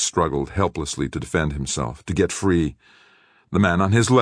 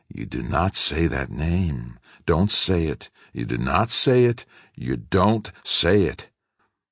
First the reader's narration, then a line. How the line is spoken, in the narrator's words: The man kept hissing many times over